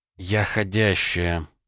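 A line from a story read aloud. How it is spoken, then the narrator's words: Sigh. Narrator (Russian): вздохнула Наталья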